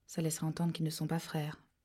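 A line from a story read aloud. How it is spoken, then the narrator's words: Murmured. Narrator (French): murmura Quincy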